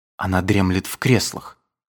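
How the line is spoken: Whisper. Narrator (Russian): сказал он шепотом

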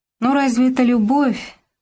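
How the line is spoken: Disappointed sigh. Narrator (Russian): вздохнула разочарованно Милка

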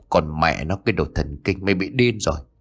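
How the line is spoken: Muttering. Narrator (Vietnamese): miệng lẩm bẩm

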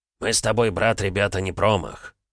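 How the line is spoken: Snorting chuckle. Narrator (Russian): хмыкнул Звиат

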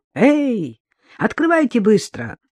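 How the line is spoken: Shouting. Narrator (Russian): Борис крикнул

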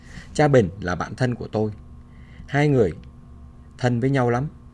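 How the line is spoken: Cheerful. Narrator (Vietnamese): Cha Oan hớn hở

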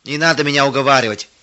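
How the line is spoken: Angry dismissal. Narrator (Russian): сердито отмахивался он

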